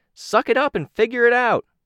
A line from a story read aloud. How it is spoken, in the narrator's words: Sidepiece called out